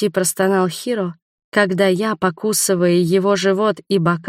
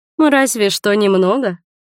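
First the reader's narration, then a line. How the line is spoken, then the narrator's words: Snort. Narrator (Russian): хмыкнула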